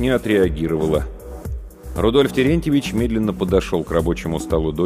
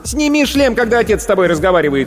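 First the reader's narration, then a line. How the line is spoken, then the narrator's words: Distant shout, mother. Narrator (Russian): крикнула из коридора мать девочки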